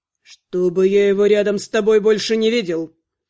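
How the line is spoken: Hissed through teeth. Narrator (Russian): процедил некромант

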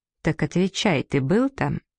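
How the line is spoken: Insistent but level, calm. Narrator (Russian): Гарольд повторил с нажимом, но очень ровно и спокойно

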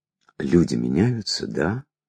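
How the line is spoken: Quiet question. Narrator (Russian): тихо спросил я

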